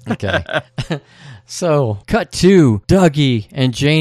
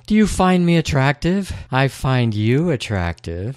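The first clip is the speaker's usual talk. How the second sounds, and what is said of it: Poor imitation of a woman's voice. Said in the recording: “One of the most horrible Naomi Watts impersonations I've ever heard ... I don't do women very well impersonation wise.”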